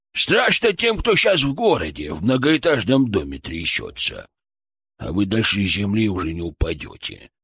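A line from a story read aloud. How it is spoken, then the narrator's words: Creaky old man's voice. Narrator (Russian): проскрипел дед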